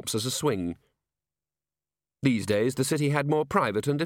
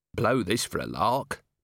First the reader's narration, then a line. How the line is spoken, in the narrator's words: muttered Vimes